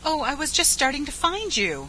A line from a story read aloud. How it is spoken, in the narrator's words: she cried